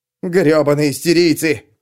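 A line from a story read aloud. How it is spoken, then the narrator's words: Barked. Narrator (Russian): рявкнул кто-то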